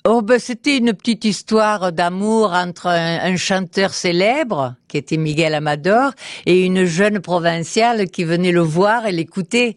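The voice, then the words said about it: Southern French Midi accent. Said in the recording (French): “c'était vous avec l'accent ... Vous n'avez jamais combattu votre accent? ... Puis c'est revenu ... Je suis dans le Midi, alors on parle tous avec l'accent.”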